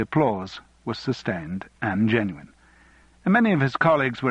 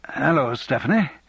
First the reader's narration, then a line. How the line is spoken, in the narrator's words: he said awkwardly